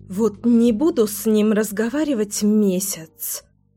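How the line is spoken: Grumbling. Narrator (Russian): ворчала Леся

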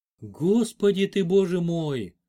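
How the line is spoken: Breathless exclamation. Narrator (Russian): только и выдохнула Клаудия

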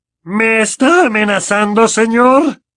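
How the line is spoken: Very loud question. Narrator (Spanish): preguntó en voz tan alta que varias personas que pasaban por allí se dieron la vuelta

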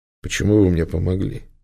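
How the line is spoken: Plain. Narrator (Russian): спросил он

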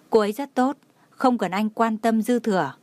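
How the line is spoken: Slow, smiling. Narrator (Vietnamese): Anh ta đột nhiên mỉm cười, chậm rãi nói

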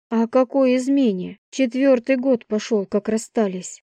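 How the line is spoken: Sigh. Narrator (Russian): вздохнул

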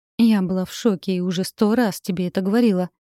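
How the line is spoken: Soft reply. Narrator (Russian): мягко ответила Катерина

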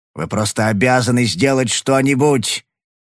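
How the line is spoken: Hoarse shout. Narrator (Russian): выкрикнул он хриплым голосом

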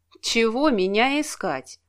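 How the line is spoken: Gloomy question. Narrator (Russian): мрачно спросила

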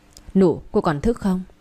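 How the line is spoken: Soft call. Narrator (Vietnamese): cậu ba khẽ gọi

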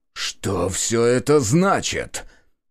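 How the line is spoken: Hissing, strained dignity. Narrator (Russian): Прошипел он, пытаясь сохранить достоинство даже в таком положении

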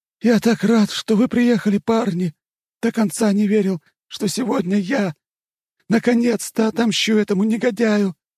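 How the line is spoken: Joyful greeting. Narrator (Russian): Радостно встретил нас Иван

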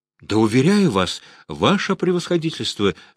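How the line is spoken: Exclaiming, voice breaking. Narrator (Russian): срывающимся голосом воскликнул Завойко, чувствуя, что, кажется, ошибся

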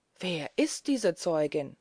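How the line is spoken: Plain. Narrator (German): fragte ich

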